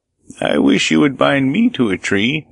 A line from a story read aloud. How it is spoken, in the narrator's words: exclaimed the shepherd